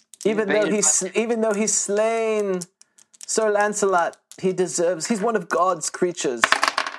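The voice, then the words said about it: Bad put-on British accent. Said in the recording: “my bad British accent”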